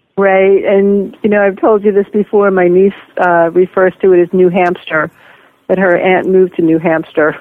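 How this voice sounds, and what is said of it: Slight New York accent. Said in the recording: “a trace of a New York accent I hear in your voice? ... I hope only a trace. ... you might have picked up a little New Hampshire along the way, too”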